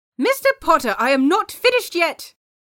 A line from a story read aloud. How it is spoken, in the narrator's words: Pomfrey yelled